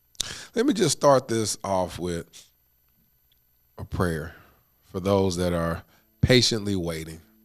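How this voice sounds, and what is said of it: Stuffy, congested voice from crying. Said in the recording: “why I sound a little stuffy. Some little snotty. Just been crying”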